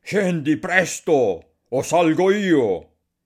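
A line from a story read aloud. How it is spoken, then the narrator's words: Screaming hoarsely. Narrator (Italian): Barbablù gridava sgolandosi alla moglie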